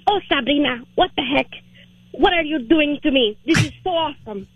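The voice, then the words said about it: Imitates mother's thick Hispanic accent. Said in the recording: “we're Hispanic, so she has a thick accent.”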